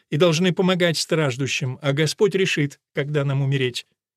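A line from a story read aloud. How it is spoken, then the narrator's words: Stern reminder. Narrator (Russian): строго напомнила Керес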